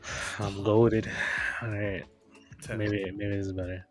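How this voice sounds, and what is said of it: Quiet voice from sore throat. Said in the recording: “not talking too loud because my throat is fucked up ... You gotta turn that up ... we're gonna have to turn that part up ... same volume ... got that low”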